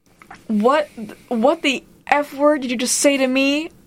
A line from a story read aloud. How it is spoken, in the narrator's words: I scream